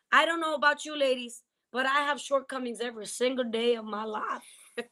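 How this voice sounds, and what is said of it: Put-on southern accent. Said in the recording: “I gotta get with the southern accent right there.”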